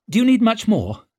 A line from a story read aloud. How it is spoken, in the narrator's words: she snapped